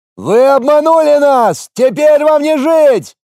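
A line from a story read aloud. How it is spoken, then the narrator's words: Shouting from a wall. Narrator (Russian): кричали со стены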